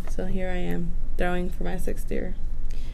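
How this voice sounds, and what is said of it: Sad-sounding voice. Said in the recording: “Why do I sound so sad? ... You're giving me some sad vibes.”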